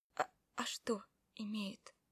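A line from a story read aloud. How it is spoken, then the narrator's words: Whispered. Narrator (Russian): прошептала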